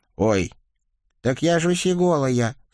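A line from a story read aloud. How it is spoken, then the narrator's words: Deliberate squeak. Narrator (Russian): старательно пропищал Николя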